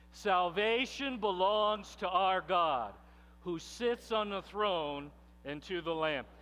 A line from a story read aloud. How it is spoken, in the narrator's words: they cried out in a loud voice